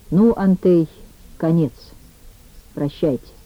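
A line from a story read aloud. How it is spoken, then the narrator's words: Quiet after long silence. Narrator (Russian): Ермилов долго молчал, а потом сказал тихонько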